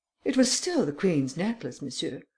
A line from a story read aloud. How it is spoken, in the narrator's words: replied the Countess haughtily